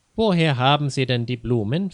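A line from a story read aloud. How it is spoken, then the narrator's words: Plain question. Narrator (German): fragte ein Polizist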